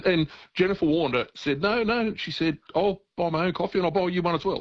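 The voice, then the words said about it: Australian accent. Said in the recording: “I was Australian accent”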